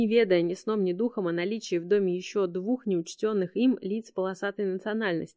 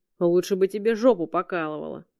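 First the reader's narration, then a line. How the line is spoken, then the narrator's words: Grumbled. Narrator (Russian): проворчал Макжи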